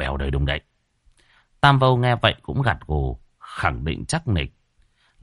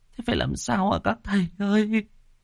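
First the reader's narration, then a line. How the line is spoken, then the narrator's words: Tearful whimpering. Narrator (Vietnamese): Chị Na mếu máo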